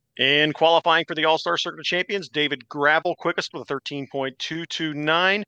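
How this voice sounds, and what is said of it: Race announcer voice. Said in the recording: “jumped into your uh, announcer voice there. That was awesome.”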